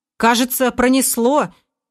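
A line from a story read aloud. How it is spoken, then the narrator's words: Tense tone. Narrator (Russian): Напряженным тоном произнес Шура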